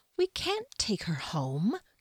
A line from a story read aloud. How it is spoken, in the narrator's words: Kier said in a reasonable tone that belied her rage